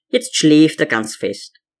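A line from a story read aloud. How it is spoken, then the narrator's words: Plain. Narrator (German): sagte sie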